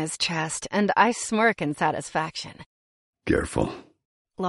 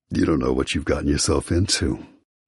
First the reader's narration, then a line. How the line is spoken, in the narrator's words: he rasps